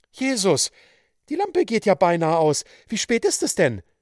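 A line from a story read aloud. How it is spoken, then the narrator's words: Anxious question. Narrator (German): fragte die Witwe ängstlich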